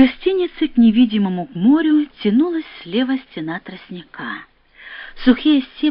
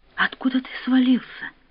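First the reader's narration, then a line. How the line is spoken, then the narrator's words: Whispered question. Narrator (Russian): спросила она тоже шепотом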